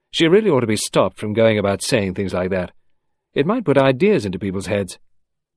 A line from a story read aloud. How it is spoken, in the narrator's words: George Crossfield said sharply